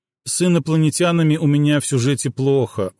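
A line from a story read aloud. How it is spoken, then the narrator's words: Glum reply. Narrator (Russian): уныло отозвался Алекс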